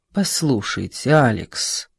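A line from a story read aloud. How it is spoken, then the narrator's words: Tired. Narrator (Russian): сказал Исаев устало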